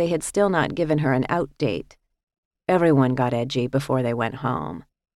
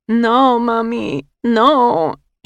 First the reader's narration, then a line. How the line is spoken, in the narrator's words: she would wail, tears streaming down her face